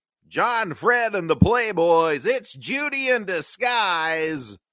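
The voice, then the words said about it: Radio DJ voice. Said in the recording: “DJ voice.”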